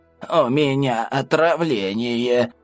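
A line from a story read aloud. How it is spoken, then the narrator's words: Hoarse, old woman. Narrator (Russian): прохрипела старушка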